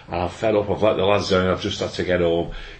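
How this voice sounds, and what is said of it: Broad Northern Irish accent. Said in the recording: “in a broad Irish, Northern Irish accent”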